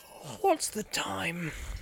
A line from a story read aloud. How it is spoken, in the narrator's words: He said sleepily